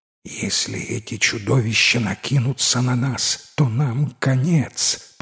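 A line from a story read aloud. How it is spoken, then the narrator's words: Whispered. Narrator (Russian): прошептал капитан смелому юноше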